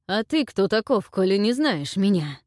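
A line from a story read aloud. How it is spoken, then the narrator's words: Moaned. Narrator (Russian): простонал противник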